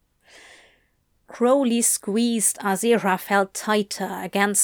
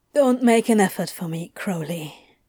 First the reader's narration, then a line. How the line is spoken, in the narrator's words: Aziraphale said at last, his voice raw but steady